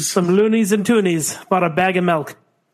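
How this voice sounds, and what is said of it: Put-on Canadian accent. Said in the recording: “sticking to these accents ... fine Canadian accent”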